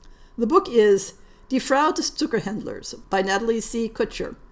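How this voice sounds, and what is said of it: Usual voice. Nothing is said of it.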